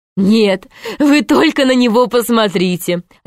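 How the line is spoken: Laughing. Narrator (Russian): засмеялась Изабелла

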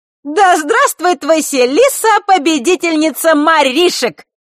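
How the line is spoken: Loud shout amid laughter. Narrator (Russian): громко прокричала гроза под хохот остальных

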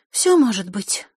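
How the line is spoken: Sighed. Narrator (Russian): вздохнула Василиса

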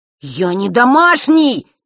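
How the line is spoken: Near roar. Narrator (Russian): Чуть ли не проревел Ник

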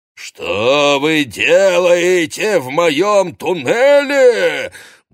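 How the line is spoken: Booming roar. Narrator (Russian): гулко взревел

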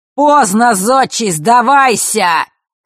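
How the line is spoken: Mocking roar. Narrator (Russian): проревел чужой насмешливый голос

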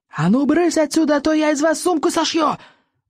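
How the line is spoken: Yelling. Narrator (Russian): завопил стоик

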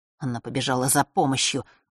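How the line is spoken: Boy muttering to himself. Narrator (Russian): бормотал мальчишка, словно бы про себя

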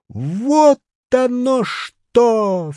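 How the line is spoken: Exclaiming, then loud laughter. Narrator (Russian): вскричал профессор и громко рассмеялся

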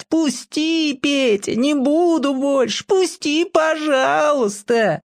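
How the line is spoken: Squealing plea. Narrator (Russian): Митька будет визжать

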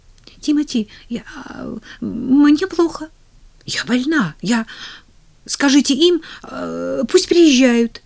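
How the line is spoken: Stammering. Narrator (Russian): запинаясь, выговорила она

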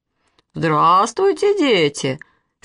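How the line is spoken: Deep bass voice. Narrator (Russian): сказал басом дядя Петя

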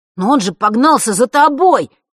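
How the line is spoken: Desperate howl. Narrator (Russian): в отчаянии взвыл Ник

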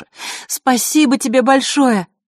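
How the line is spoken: Shouting. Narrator (Russian): крикнула ей Василиса

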